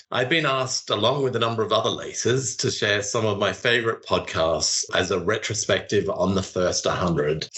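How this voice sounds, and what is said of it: Speaks with a noticeable accent. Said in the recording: “you could probably tell that from my accent.”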